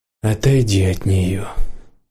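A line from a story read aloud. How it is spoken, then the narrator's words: Muffled, hollow voice. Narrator (Russian): глухо сказал Рэг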